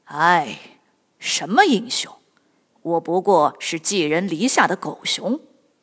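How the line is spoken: Sighing, self-deprecating. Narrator (Chinese): 吕布叹了口气说

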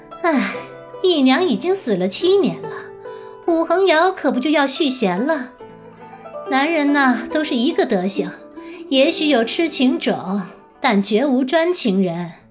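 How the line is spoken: Smiling. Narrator (Chinese): 韦正氏一笑，道

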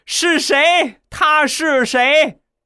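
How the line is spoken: Shocked roaring. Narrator (Chinese): 晴天霹雳呀，失声咆哮

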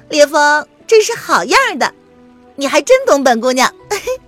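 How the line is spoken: Affectionate playful laughter. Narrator (Chinese): 凌渊……十分亲昵的……与烈风笑闹

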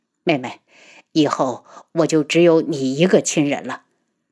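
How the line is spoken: Bitter laugh. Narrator (Chinese): 楚云木苦笑道

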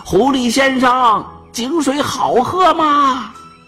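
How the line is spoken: Anxious goat shouting down well. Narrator (Chinese): 山羊那个急呀，对着井底大喊

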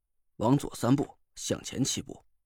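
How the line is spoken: Calm, detached. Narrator (Chinese): 周栋淡淡的说

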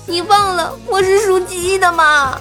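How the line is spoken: Sobbing harder. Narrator (Chinese): 哭得更厉害的说

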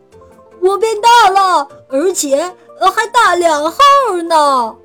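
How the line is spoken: Cheering shout. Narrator (Chinese): 变成十二的十欢呼大叫

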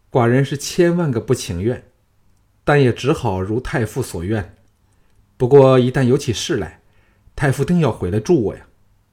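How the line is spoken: Sighing. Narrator (Chinese): 小盘叹道

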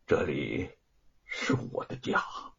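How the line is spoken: Trembling voice. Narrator (Chinese): 白雪燕…声音颤抖着说

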